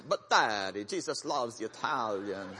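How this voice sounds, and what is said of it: Put-on Italian accent. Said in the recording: “he'd put on this Italian accent”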